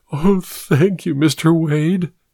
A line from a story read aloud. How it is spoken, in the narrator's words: she purred